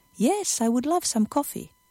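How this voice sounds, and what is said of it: Voice raised about an octave. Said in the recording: “my voice went up again, about an octave”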